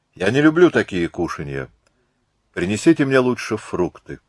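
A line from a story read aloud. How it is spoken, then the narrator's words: Dry, hurt declaration. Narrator (Russian): Задетая за живое, Марианна сухо заявила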